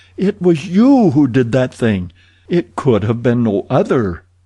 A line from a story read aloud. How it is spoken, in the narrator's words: she cried